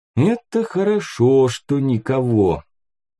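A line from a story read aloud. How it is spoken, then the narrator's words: Thoughtful drawl. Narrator (Russian): протянул задумчиво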